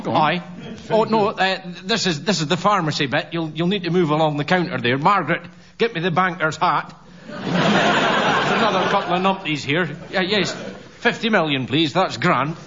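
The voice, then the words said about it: Scottish Thurso accent. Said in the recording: “probably the only one here that can do a genuine Thurso accent”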